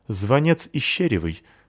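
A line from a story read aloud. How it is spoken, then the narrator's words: Angry. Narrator (Russian): ответила продавщица сердито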